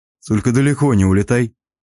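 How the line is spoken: Amused snort. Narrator (Russian): Хмыкнул я

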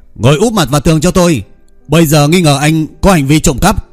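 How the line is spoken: Loud shouting. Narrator (Vietnamese): quát lớn

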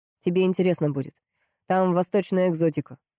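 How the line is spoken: Snorting into phone. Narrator (Russian): хмыкнул в трубку Кирьянов

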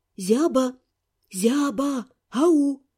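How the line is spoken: Quiet calling. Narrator (Russian): позвала тихонько

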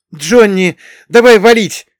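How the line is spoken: Shout. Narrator (Russian): закричал Патрик

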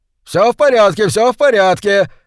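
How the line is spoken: Shouting. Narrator (Russian): закричал губернатор Бенбридж

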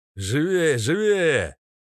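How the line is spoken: Shouting. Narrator (Russian): закричал военный

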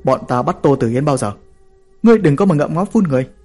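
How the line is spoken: Shouting in face. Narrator (Vietnamese): Hắn hét vào mặt tôi

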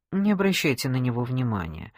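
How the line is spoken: Calm waiter. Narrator (Russian): спокойно сказал официант

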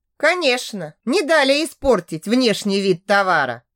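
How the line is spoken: Wry snort. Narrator (Russian): хмыкнул Винсан

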